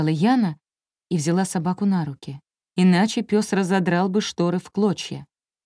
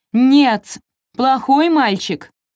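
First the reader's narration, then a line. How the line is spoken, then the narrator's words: Shouting. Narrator (Russian): закричала Яна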